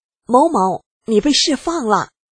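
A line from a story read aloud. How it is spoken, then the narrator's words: Loud shout in corridor. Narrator (Chinese): 他在走廊大声喊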